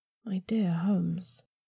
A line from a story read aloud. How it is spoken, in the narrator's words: I murmured